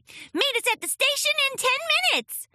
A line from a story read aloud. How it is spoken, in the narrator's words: shouted Sweetie Belle